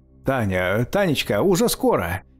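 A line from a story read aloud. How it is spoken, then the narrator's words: Falsely cheerful shout. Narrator (Russian): Кричал он ей наигранно весело, как-то лживо-участливо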